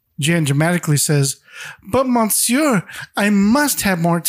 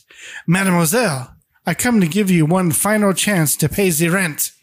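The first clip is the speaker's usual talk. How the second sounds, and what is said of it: Put-on French accent, old man. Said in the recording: “says with a French accent”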